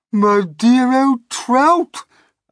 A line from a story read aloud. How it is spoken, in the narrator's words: Aunt Sponge cried out